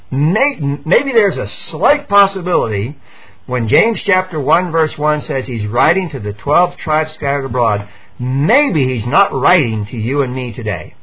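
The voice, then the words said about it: Sarcastic tone. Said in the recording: “I'm obviously being sarcastic here”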